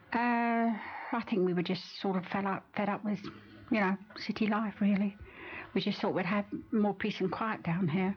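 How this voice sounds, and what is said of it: North London accent. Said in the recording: “I could tell from ... accent that she wasn't a born local ... I come from North London.”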